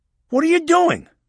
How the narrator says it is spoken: Maxwell yelled

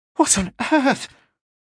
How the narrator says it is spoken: gave a laugh that was almost a hiccup

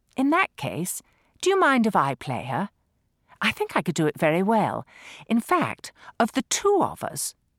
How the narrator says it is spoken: Lola was saying sweetly

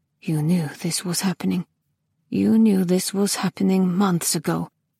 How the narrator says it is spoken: She mumbled

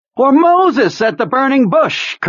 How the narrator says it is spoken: Kurtz cried, his lean and rather horsey face lit with a daffy smile

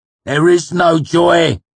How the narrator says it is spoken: Lanray shouted in an awful voice

